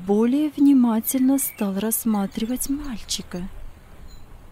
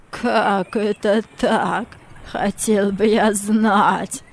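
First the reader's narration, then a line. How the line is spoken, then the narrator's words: Uncertain laughing voice. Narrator (Russian): Мартина рассмеялся, но в голосе его чувствовалась неуверенность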